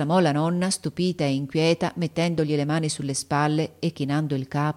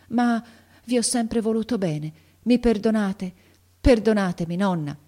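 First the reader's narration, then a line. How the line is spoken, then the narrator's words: Halting, trembling voice. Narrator (Italian): continuò Ferruccio a stento, con la voce tremola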